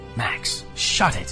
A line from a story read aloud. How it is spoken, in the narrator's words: Ian hissed